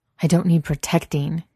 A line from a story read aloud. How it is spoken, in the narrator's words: he snaps